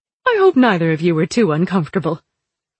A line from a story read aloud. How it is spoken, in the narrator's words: the Empress said cheerfully